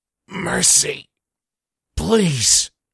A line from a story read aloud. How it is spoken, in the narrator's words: Connor's gasping says